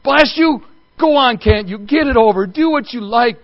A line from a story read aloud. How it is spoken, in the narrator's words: bellowed, but ending whimpering